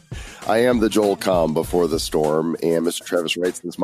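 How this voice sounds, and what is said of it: Scratchy, calm voice from a cold. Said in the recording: “You sound so calm. ... I still have a cold, and so my dulcet tones are a little scratchy and even more dulcet ... my voice is a little bit on the fritzola”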